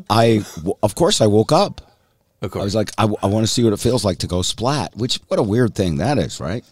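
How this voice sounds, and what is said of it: Hoarse voice from laryngitis. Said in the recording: “laryngitis, a little bit of cold”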